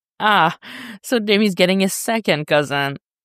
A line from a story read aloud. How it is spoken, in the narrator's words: Steph snorts